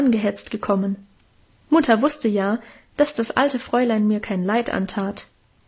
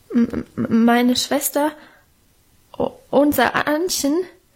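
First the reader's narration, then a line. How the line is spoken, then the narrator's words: Stammering. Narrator (German): stotterte er vor dem gelben, knochigen Gesicht der Alten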